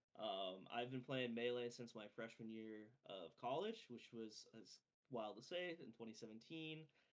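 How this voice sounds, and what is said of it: Maine accent. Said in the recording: “I'm from Maine in the Banga Maine area with the Maine accent.”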